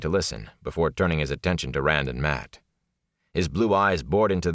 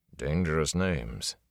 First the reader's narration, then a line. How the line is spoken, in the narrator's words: Tom muttered